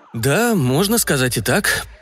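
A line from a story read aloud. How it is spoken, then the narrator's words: Uncertain reply. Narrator (Russian): неуверенно ответил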